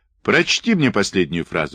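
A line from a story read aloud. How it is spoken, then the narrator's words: Plain. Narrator (Russian): сказал он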